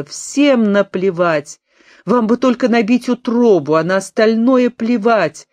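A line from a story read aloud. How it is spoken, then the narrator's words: Sudden exclamation, young woman. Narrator (Russian): Неожиданно девушка воскликнула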